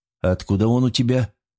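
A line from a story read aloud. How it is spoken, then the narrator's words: Calm question. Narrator (Russian): спокойно поинтересовался я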